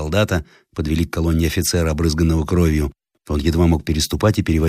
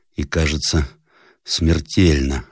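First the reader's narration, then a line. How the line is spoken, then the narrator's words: Barely audible reply. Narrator (Russian): отвечал едва слышным голосом капитан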